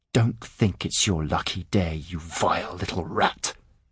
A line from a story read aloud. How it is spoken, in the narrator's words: Hart hissed